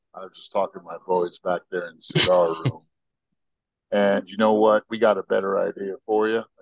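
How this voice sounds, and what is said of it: Put-on southern drawl. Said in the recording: “I'm using some southern drawl here ... your southern South American, mate”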